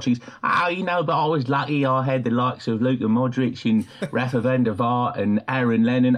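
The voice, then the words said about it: Harry Redknapp impression. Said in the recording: “that is an astonishingly good impression ... That's really good. ... my Harry Redknapp impersonation”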